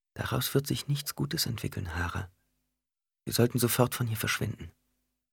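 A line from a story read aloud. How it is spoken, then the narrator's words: Quiet. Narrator (German): Ghanima sagte leise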